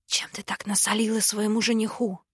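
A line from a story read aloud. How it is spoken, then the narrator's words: Quiet question. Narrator (Russian): спросил Кинсит негромко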